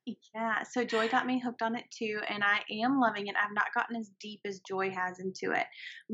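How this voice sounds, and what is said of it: Southern American accent. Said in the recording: “with my southern accent, too, there's it comes out a little bit different”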